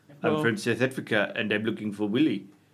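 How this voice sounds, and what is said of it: Put-on South African accent. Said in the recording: “You need to say this in local accent as well, please ... Say it in Afrikaans ... Scottish ... There's too little there for me to really get into an accent”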